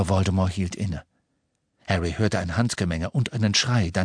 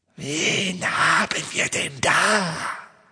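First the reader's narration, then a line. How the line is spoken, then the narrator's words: Soft snakelike hiss. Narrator (German): sagte er mit seinem leisen, schlangenartigen Zischen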